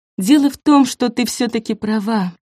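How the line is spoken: Sighed. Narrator (Russian): вздохнула Нина

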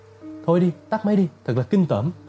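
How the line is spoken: Crying out. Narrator (Vietnamese): Vera kêu lên

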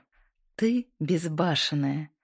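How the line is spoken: Ringing laughter. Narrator (Russian): рассмеялась Линда, ее смех звенел в ночной тишине

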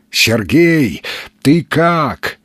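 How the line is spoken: Shouted downward. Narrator (Russian): крикнул вниз странник

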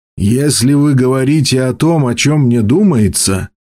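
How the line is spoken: Grumbling. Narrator (Russian): проворчал он

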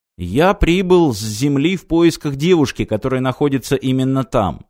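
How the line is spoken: Plain. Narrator (Russian): сказал Мартин

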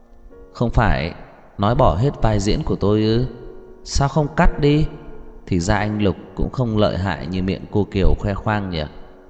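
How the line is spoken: Fearless, with a soft laugh. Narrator (Vietnamese): Lâm Thị Ý khẽ cười một tiếng, không sợ hãi chút nào, mở miệng nói

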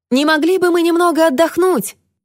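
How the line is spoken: Shouted. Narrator (Russian): крикнула она Люси

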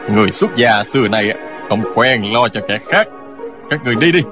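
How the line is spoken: Cold, scoffing. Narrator (Vietnamese): Người kia hừ một tiếng lạnh lùng nói

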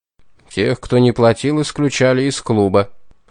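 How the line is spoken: Dry answer. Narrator (Russian): сухо ответил генерал

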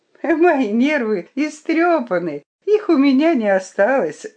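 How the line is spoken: Cheerful. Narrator (Russian): сказала я ему весело

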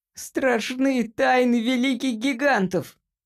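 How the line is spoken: Squeaky voice. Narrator (Russian): пропищал Джимпер

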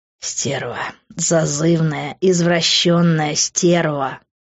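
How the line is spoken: Hissing, close up. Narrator (Russian): шипел он в мое полыхавшее лицо

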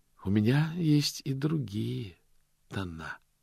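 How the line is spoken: Calm statement. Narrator (Russian): спокойно сообщил лорд Ветинари

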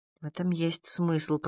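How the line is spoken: Muttered. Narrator (Russian): пробормотала

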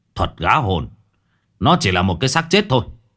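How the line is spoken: Sharp shout. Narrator (Vietnamese): Ông Long quát lên

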